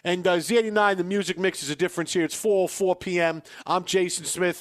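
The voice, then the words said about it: New York accented radio DJ voice. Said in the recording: “I sound like just some dude from New York”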